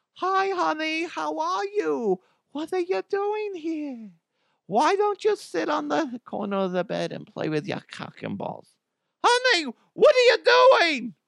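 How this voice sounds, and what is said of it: Adam Sandler-style mom voice. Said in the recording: “I stole the voice for Mama DeHuff ... I stole that from Adam Sandler ... my go-to mom voice”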